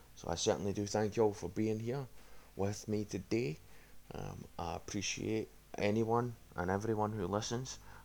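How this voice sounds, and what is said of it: Strong accent, hard to understand. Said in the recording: “my accent certainly isn't easy to understand”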